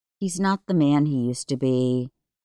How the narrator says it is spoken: sighed to myself

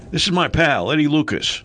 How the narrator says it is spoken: Leo barked

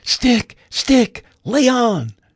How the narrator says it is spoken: the lad yelled out

